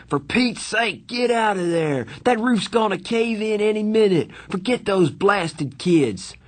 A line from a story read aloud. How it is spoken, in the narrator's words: he screamed